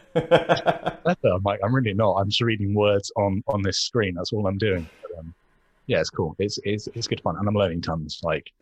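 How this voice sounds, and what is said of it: English accent. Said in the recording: “We love your English accents ... oh my God, English accent.”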